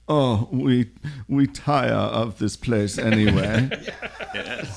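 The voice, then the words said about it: Put-on German accent. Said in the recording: “in a nice German accent”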